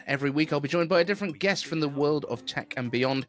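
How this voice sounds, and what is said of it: British English accent. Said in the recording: “Apple News with a British accent ... I'm British and sound wrong to everyone outside of the UK”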